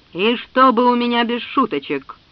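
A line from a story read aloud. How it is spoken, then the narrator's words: Booming farewell. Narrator (Russian): прогремел на прощание Нельзевул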